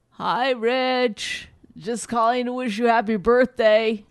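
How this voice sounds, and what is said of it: Imitates another person's voice. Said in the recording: “my impression of your father.”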